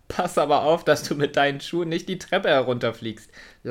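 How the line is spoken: Laughing. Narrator (German): lachte er

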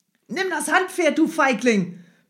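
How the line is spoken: Courier bellowing. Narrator (German): brüllte der Kurier

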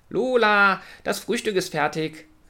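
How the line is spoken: Little brother calling from below. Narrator (German): rief von unten ihr kleiner Bruder Leo

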